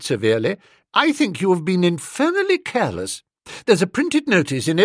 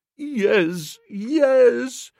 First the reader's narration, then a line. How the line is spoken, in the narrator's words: moaned the poor man